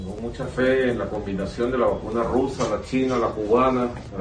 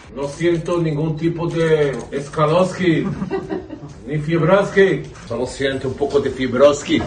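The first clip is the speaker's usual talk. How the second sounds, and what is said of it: Mock Russian accent. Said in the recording (Spanish): “bromear con el acento ruso”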